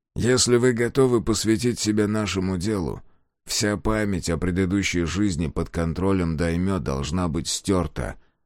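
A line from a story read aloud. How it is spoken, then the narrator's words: Plain. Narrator (Russian): сказал призрак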